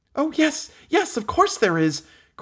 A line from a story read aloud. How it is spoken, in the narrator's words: cried that little dried plum of a Meg Giry